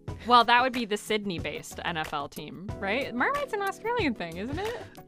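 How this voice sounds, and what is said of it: British accent. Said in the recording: “It's your British accent. Just gives you away.”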